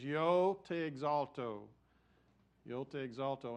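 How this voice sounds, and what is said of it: Spanish spoken with West Texas accent. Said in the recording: “this is going to be my West Texas accent in speaking Spanish”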